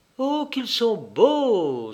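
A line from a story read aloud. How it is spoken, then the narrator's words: Exclaimed, cheerful again. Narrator (French): s'écria Sina, recouvrant sa gaieté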